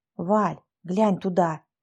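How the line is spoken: Curious whisper. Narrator (Russian): заинтересованно шептала Лизавета

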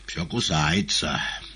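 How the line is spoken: Sighing remark. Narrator (Russian): вздохнув, заметил Коровьев

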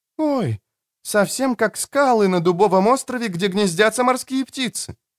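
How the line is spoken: Exclaimed. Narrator (Russian): воскликнула

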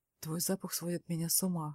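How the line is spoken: Hoarse whisper. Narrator (Russian): хрипло шепчет он

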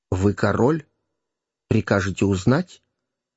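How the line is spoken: Solemn reply. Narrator (Russian): торжественно ответил ему граф Гертфорд

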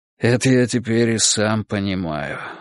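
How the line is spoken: Sighing. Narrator (Russian): вздохнул Николай Степанович

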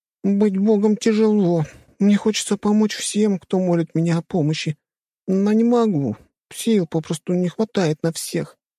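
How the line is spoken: Whimpering. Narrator (Russian): захныкала она

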